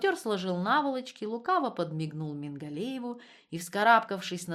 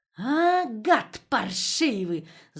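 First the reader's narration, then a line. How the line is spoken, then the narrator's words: Growled. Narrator (Russian): зарычал Мингалеев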